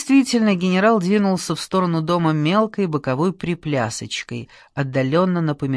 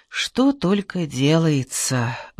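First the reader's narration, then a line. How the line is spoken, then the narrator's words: Sighing. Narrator (Russian): вздохнула Лора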